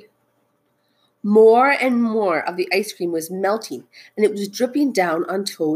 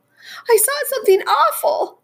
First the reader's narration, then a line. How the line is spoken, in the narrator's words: cried the mouse